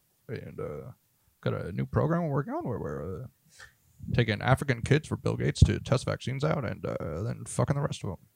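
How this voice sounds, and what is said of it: Bad impression of another person's voice. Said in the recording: “That's a bad Obama... That's Obama in whiteface... doing a bad impression of someone else's bad impression of Obama”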